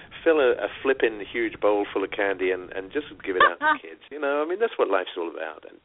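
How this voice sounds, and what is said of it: British accent. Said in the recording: “as you may have noticed from the accent, I come from the UK”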